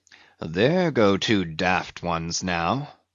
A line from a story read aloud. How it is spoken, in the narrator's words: muttered the old Manxman